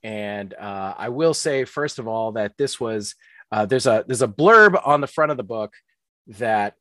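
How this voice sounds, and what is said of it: Usual voice. Nothing is said of it.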